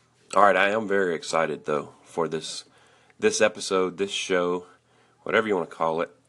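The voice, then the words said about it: Tired voice. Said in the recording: “I'm a little tired today, so just forgive my voice.”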